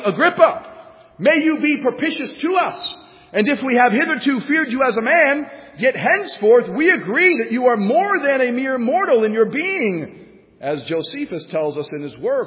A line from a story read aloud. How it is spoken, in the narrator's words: the crowd kept shouting